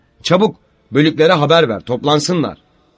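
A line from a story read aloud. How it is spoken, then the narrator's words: Shouting. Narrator (Turkish): diye bağırıyordu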